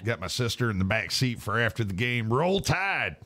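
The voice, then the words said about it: Put-on Southern American accent. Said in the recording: “You said you got to use a southern accent.”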